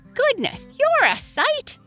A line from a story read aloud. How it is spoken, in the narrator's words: Henrietta Hen exclaimed